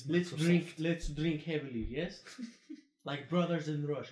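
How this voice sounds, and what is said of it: John Travolta's put-on Russian accent. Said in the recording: “John Travolta plays the whole fucking movie as a Russian dude ... And he has that accent”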